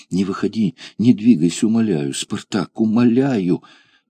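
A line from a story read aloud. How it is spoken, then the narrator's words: Agitated whisper, woman. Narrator (Russian): взволнованно шептала несчастная женщина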